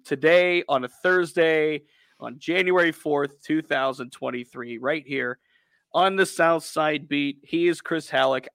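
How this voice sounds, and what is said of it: Raspy, hoarse voice. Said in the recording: “I am a raspy, less than 100% ... Raspy”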